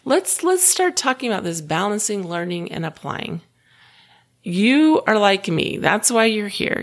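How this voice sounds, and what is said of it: Slightly hoarse voice. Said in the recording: “you may hear a little bit of hoarseness in my voice ... maybe I got a little too enthusiastic and overused my voice”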